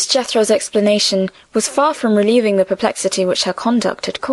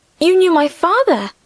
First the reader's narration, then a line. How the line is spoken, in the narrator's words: Emily exclaimed